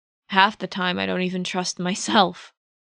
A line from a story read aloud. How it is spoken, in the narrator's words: he said with a bitter laugh